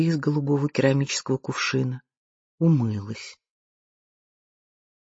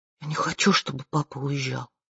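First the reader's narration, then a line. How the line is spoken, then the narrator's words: Whispered. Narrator (Russian): прошептала она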